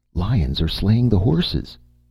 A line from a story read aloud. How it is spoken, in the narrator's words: cried Valeria